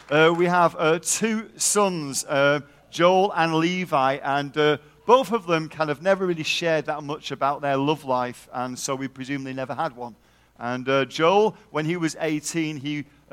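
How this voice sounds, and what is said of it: Texas accent. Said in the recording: “We live in Texas, as you can probably tell from my accent.”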